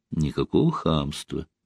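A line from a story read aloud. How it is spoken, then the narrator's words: Soft reply. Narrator (Russian): мягко ответила малиновая служащая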